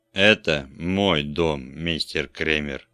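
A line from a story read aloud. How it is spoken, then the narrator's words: Icy voice. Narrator (Russian): ледяным голосом произнес он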